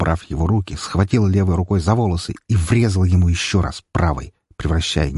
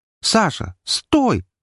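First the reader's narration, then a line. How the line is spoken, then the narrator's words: Shout from behind. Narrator (Russian): закричали у меня за спиной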